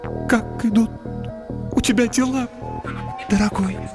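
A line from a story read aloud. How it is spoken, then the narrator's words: Babbling, with tenderness. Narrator (Russian): Вновь пролепетала она, но на этот раз в ее голосе послышалось нечто вроде нежности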